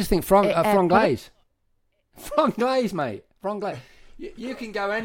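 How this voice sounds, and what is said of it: Usual voice. Nothing is said of it.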